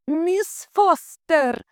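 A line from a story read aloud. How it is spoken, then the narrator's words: Frantic distant scream. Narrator (Russian): истошно завопили из офиса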